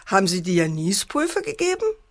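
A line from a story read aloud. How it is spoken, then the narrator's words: Mocking. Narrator (German): spottete der Vater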